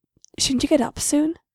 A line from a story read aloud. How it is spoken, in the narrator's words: Irma whispered into her neck